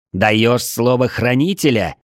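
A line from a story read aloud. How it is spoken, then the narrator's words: Angry shout. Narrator (Russian): зло выкрикнул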